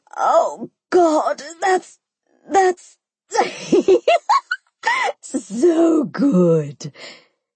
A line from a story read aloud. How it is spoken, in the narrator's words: the chick screamed